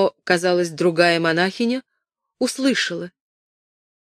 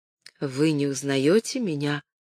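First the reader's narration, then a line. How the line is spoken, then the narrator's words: Calm flat toneless question. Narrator (Russian): спросила спокойно монахиня тусклым, невыразительным голосом глухой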